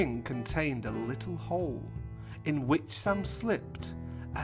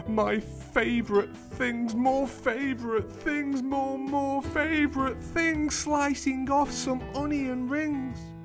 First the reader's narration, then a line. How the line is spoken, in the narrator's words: she shrieked